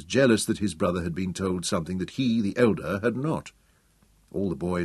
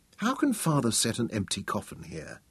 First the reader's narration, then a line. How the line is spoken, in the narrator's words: Tom murmured